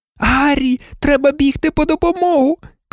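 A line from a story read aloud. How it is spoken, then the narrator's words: Shouted. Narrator (Ukrainian): крикнула Герміона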